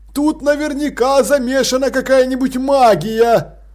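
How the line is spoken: Exclaiming. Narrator (Russian): воскликнул Гореем

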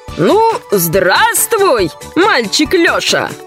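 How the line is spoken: Cheerful old man. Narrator (Russian): весело сказал Дед Мороз

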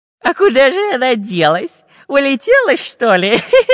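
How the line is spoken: Nasty giggling voice. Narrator (Russian): Противным голосом захихикал Дырка

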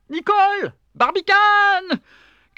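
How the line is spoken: Shouting. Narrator (French): cria J

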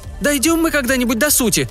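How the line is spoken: Impatient shout. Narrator (Russian): закричала Джойс, которой, конечно, не терпелось поскорее удрать на улицу

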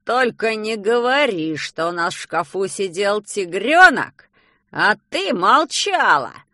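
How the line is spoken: Frightening voice. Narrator (Russian): Страшным голосом произносит он

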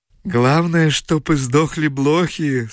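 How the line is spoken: Laughing. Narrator (Russian): смеялся японец

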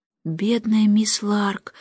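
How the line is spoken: Sighing. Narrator (Russian): вздохнула Джейн

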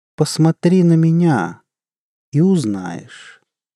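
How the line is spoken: Calm. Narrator (Russian): сказала кошка спокойно

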